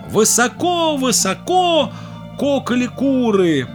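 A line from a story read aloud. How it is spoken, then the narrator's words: Goslings shouting skyward. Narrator (Russian): Под облака закричали гусенята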